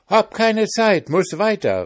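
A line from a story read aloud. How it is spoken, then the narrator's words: Calling out. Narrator (German): rief der Pfannkuchen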